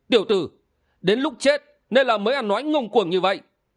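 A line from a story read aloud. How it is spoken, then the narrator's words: Loud young man's shout. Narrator (Vietnamese): Người bịt mặt thứ hai, dáng người cao gầy và nhỏ tuổi hơn, quát lớn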